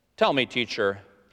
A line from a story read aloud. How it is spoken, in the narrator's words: he said